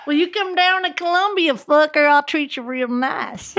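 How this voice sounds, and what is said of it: Put-on Southern American accent. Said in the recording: “That is South. ... You guys don't think I'm good at accents.”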